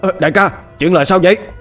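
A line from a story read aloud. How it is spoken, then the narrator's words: Stunned shouted question. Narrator (Vietnamese): Tên đạo sĩ thấy vậy thì ngỡ ngàng, hét lên hỏi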